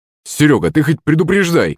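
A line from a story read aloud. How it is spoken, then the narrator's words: Startled exclamation. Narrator (Russian): вскрикнул батя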